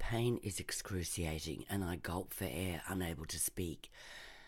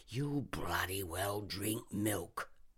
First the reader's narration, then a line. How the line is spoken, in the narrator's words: snarls